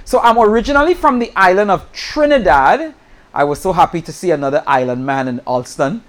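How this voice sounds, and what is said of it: Trinidadian accent. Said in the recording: “I'm from Trinidad, and usually people hear my accent ... They say you're from Jamaica”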